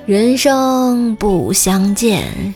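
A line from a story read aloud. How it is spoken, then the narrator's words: Resonant, mournful. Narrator (Chinese): 声音洪亮啊，一悲而远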